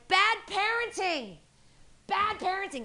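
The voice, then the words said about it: Yelling loudly. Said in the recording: “I'm yelling from across the street”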